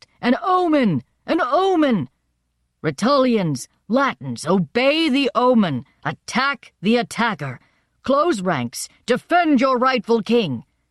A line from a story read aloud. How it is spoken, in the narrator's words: Tolumnius shouted out